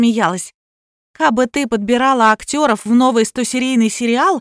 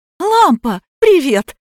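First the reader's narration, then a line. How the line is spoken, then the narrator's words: Ringing voice coughs, then exclaims lower. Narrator (Russian): Звонкая сопрано закашлялась, потом, превратившись в меццо-сопрано, воскликнула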